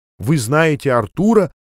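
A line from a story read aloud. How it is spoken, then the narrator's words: Astonished exclamation. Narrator (Russian): воскликнула она изумленно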